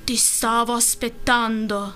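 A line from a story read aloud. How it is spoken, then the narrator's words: Deep voice. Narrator (Italian): disse Ottopiedi con la sua voce fonda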